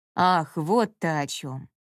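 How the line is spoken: Sighing woman. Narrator (Russian): Вздохнув, произнесла хозяйка

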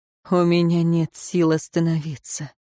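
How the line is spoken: Shaky-breathed reply. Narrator (Russian): Он судорожно вздохнул, ответил

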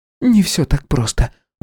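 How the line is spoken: Sighing. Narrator (Russian): вздохнула байкерша

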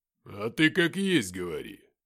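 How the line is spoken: Abrupt, rough. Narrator (Russian): неожиданно грубо выдал Филиппыч

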